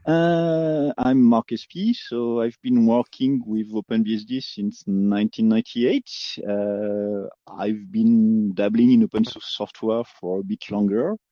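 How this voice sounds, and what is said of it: French accent. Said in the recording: “sorry about the accent. I'm French, in case this isn't apparent.”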